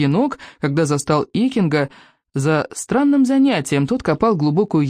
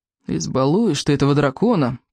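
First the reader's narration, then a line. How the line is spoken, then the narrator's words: Grumbled. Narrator (Russian): проворчал Рыбьенок, укоризненно качая головой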